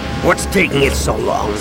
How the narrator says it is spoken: Han growled

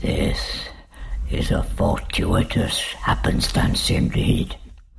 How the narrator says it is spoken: breathed Rhode

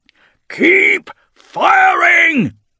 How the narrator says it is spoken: shouts again

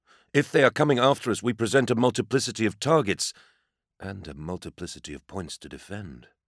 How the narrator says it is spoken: Aesis muttered

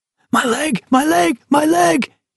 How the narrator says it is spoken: he screamed, unable to help himself

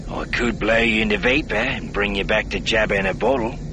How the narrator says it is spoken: Bossin said, his voice deceptively reasonable

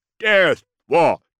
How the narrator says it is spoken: Abathur shouted the name

